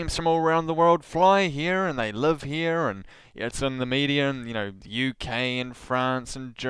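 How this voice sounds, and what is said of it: Usual voice. Nothing is said of it.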